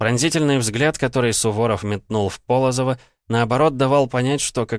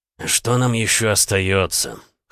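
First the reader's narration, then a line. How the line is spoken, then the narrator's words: Dry snort. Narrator (Russian): хмыкнул Полозов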